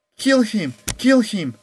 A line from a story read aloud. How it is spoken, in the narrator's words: the mob yelled